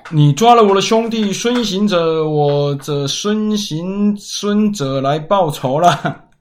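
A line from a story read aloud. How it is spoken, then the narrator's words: Shouting. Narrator (Chinese): 你 大喊着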